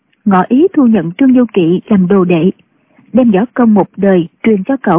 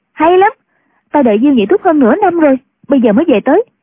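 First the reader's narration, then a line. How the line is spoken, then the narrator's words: Joyful exclamation. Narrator (Vietnamese): Chu Cửu Chân cảm mừng, reo lên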